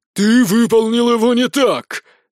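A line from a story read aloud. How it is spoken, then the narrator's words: Barking shout. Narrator (Russian): Вновь рявкнул инквизитор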